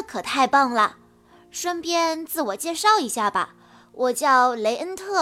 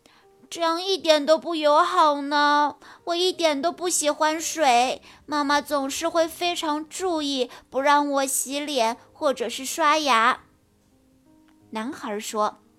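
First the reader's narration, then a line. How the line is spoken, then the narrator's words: Crying. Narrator (Chinese): 莫娜哭着说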